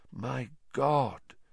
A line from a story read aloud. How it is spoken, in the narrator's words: said Lupin softly